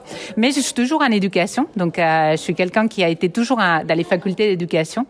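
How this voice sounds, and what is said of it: Catalan accent in French. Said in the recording (French): “j'ai un accent catalan, mais je suis partie soigner cet accent au Québec. ça n'a rien changé”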